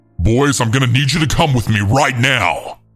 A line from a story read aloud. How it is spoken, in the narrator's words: he then screamed